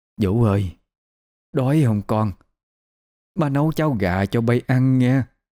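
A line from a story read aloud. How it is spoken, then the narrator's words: Old woman muttering. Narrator (Vietnamese): bà lẩm bẩm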